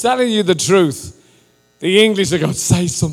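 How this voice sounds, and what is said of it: Usual voice. Nothing is said of it.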